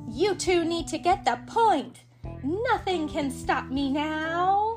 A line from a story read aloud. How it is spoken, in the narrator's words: the villain cried